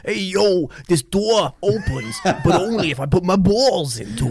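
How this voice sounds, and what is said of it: Put-on Brooklyn accent. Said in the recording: “I'm gonna do him like a Brooklyn accent, because let's face it, he's just an American”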